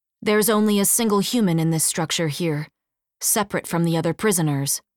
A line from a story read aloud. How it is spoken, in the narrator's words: Rosie said